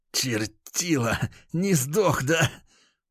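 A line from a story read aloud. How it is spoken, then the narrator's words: Hostile hiss. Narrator (Russian): прошипел парень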